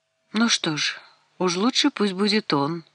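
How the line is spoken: Gloomy. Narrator (Russian): мрачно произнесла Изабель

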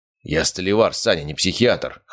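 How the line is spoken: Snorting. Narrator (Russian): хмыкнул Валера

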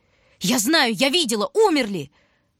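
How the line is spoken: Scream. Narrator (Russian): Одна Таня кричала

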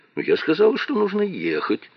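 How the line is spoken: Uncertain. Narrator (Russian): неуверенно произнесла она

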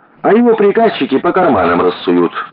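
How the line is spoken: Angry. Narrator (Russian): зло сказал Вася

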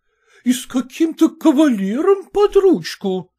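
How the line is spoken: Officer's wife exclaiming. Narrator (Russian): воскликнула штаб-офицерша Яликова

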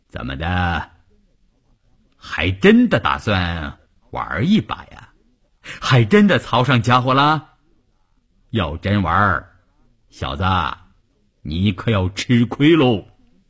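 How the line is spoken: Plain. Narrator (Chinese): 关山林说着

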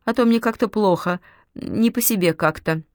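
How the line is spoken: Strained, forced out. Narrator (Russian): с трудом выдавил он

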